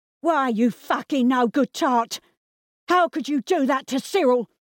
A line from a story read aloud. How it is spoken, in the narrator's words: screamed Peggy